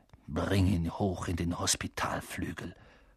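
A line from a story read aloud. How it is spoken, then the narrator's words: Hissing angrily. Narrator (German): fauchte Snape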